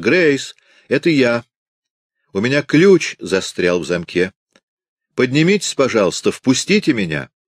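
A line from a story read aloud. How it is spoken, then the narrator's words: Shouting. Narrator (Russian): крикнула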